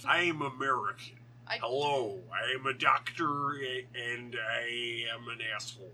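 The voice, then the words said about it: Rough put-on American accent. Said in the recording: “his American accent in the beginning of that is rough”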